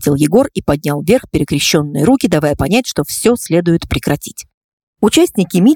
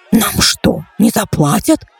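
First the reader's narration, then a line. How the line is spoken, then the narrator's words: Hoarse voice amid grumbling crowd. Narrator (Russian): послышался чей-то хриплый голос, который тут же утонул в общем недовольном гуле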